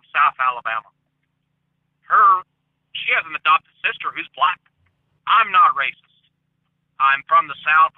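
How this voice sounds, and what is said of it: Southern American accent. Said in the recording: “I've got the Southern accent, the whole nine yards”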